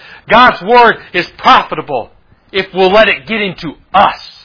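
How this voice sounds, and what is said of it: Usual voice. Nothing is said of it.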